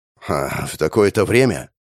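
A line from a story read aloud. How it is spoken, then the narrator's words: Skeptical snort. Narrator (Russian): хмыкнул капитан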